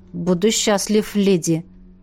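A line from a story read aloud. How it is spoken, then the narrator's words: Embarrassed mumble. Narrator (Russian): Пробормотал Канис, покраснев до ушей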